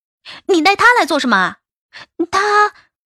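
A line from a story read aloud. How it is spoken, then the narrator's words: Startled yelling. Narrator (Chinese): 心里一惊，冲着小季嚷道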